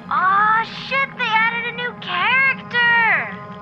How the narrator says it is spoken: Someone screams into their mic

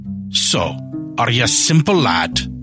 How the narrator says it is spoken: He snapped

